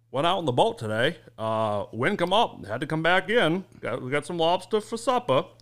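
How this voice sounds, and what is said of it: Put-on rural Maine accent. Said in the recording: “I'll give you a Maine accent ... That's what a Maine accent sounds like ... That's really good, actually ... Sounds like a Wisconsin accent ... It's like a Kennedy accent, almost”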